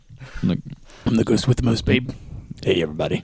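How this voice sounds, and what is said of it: Impression of a movie character's voice. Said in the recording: “Beetlejuice is a good movie. ... I liked your impression of him too. ... You did do a good impression.”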